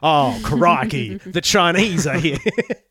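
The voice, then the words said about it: Bad put-on Australian accent. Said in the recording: “a really bad fucking Australian accent”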